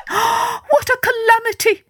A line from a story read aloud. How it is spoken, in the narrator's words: she cried